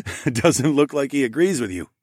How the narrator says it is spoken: laughed

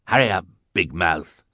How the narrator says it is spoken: he growled at Sunny

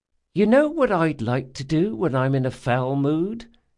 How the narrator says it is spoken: said Esri sweetly

